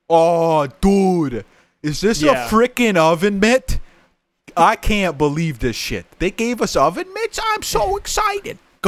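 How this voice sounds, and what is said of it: Yelling Italian New Yorker impression. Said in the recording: “Italian New Yorker guy ... He's literally screaming all the time ... Every word he says, he's yelling.”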